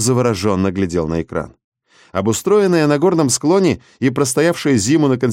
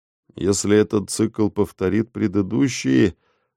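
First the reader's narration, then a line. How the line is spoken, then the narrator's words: Distracted mutter. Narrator (Russian): пробормотал, не отрывая глаз от экрана Ник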